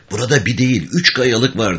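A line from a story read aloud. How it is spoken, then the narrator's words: Murmured. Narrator (Turkish): diye mırıldandı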